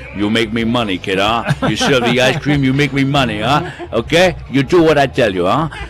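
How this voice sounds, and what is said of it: Godfather-style Italian accent. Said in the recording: “in true Godfather style ... that was an Italian accent”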